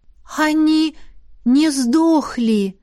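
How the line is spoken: Uncertain drawl. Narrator (Russian): неуверенно протянула Беата

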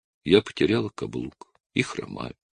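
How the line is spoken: Calm. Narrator (Russian): спокойно сказала

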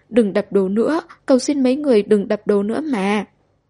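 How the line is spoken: Crying, pleading. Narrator (Vietnamese): khóc lóc

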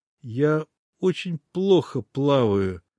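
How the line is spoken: Trembling confession. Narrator (Russian): дрожащим голосом сознался Китлим

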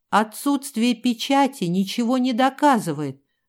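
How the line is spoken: Shrill squeal. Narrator (Russian): взвизгнул маркиз

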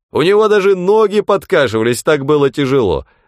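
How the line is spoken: Wailing. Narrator (Russian): вопил Хегланд

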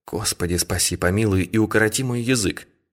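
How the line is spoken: Whisper. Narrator (Russian): шепнула она

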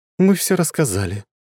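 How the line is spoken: Sigh. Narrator (Russian): вздохнула Лиза

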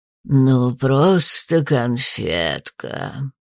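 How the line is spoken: Creaky ghostly voice. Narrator (Russian): Проскрипел у меня за спиной почтенный призрак портной

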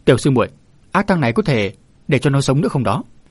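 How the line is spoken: Sudden shout. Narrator (Vietnamese): Chợt Minh Hà quát

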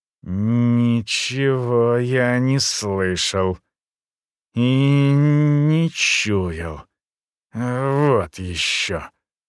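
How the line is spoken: Slow, deliberate, defiant. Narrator (Russian): Медленно, с расстановкой, выговорил со странным вызовом в голосе

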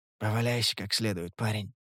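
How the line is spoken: Whisper. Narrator (Russian): прошептал

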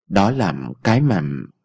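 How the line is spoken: Hesitant. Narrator (Vietnamese): Ông Thái ngập ngừng

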